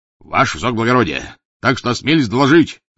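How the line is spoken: Policeman barking. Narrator (Russian): гаркнул полицейский

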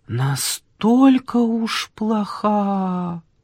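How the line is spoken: Drawn-out old woman's voice. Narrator (Russian): протянула старуха

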